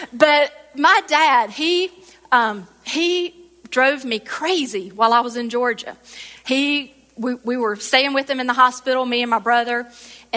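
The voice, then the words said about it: Southern American accent. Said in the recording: “a southern accent like me”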